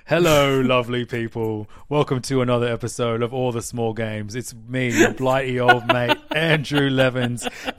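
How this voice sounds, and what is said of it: Put-on British accent. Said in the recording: “I'll be British. ... keep the accent up throughout the whole episode.”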